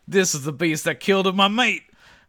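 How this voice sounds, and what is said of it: Put-on Australian accent. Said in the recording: “remember Lex 2 is Australian ... despite being born Australian, I don't have a good Australian accent.”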